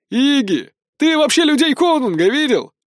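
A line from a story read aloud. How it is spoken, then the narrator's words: Laughing young man. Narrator (Russian): рассмеялся молодой безбородый парень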